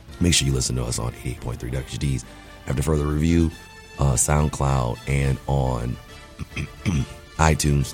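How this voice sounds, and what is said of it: Hoarse voice giving out. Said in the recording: “my voice is going out”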